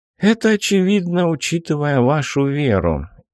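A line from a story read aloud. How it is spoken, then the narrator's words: Heavy sigh. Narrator (Russian): тяжело вздохнул командир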